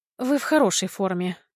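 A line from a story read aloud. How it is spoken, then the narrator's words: Muffled cough, answering. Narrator (Russian): глухо кашлянув, ответила я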